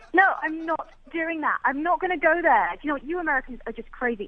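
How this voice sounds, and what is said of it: English woman's accent. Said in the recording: “with your accent ... I've never heard an English woman get fired up before ... my accent”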